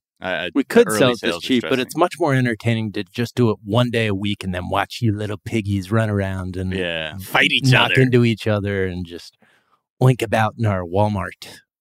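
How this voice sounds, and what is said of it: Imitates another person's voice. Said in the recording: “my impression of the Walton family”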